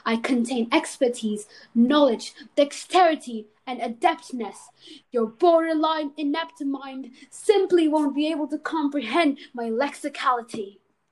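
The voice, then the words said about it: Put-on posh pompous accent. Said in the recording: “what's with the accent?”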